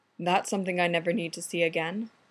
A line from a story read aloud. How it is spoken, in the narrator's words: Conda said evenly